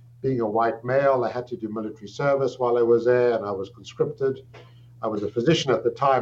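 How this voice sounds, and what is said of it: South African accent. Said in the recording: “You can hear from my accent that I'm not Canadian. I'm South African by birth.”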